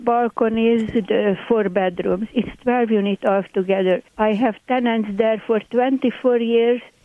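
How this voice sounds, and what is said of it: Hungarian accent. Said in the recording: “My accent, by the way, is Hungarian. ... I love your accent.”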